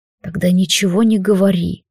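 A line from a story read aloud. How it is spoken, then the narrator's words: Quiet reply. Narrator (Russian): тихо отозвался Лилайн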